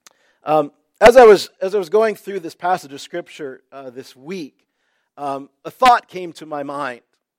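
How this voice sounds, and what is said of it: Congested voice. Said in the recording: “I'm battling a bit of a cold here this morning... my ears are plugged”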